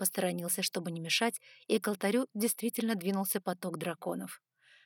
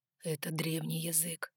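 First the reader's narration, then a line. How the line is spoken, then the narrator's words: Whispered explanation. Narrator (Russian): шепотом пояснил Ноа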